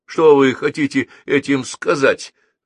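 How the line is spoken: Exclaiming. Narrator (Russian): воскликнул Геннадий

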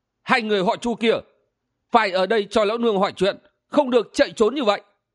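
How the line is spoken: Shrill shout. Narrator (Vietnamese): một tiếng quát lanh lảnh

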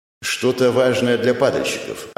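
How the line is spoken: Plain. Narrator (Russian): ответил Эхо

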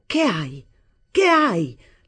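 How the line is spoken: Brutal shout. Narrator (Italian): gridai in modo brutale

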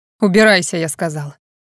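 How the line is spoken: Barked. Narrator (Russian): Рявкнул Адриан

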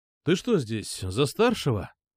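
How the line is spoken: Plain. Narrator (Russian): спросил я

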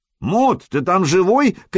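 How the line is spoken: Shout from above. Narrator (Russian): крикнули сверху

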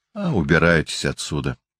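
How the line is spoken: Tired. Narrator (Russian): устало сказал Берден

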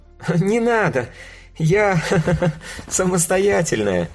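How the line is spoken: Laughing young woman. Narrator (Russian): рассмеялась девушка

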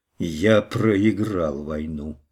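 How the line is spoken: Mumbled. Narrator (Russian): пробормотал он

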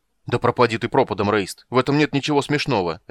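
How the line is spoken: Barking. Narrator (Russian): рявкнул Карамон

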